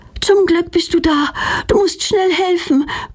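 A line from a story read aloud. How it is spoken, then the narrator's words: Panting. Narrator (German): keucht Petronella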